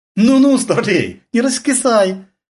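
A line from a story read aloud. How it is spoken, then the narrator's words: Cheerful woman. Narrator (Russian): весело сказала жена Исрафилова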